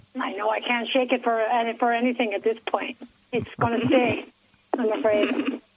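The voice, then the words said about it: German-Italian accent. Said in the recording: “you still have that German-Italian accent. I can hear it.”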